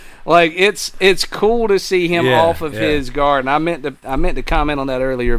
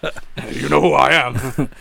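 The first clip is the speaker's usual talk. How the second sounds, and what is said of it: Deliberately bad stern character voice. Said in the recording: “I'm back in my bad voice again.”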